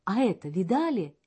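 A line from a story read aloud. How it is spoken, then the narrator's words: Exclamation. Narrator (Russian): воскликнул он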